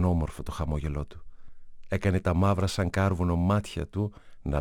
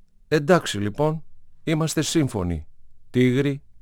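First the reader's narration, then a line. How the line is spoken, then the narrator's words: Smiling rascal. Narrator (Greek): είπε το παλιόπαιδο και χαμογέλασε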